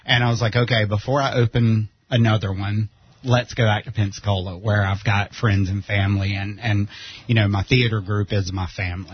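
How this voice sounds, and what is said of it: Southern US accent. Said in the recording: “I'm not originally from here, if you can't tell by the accent. I'm from South Carolina”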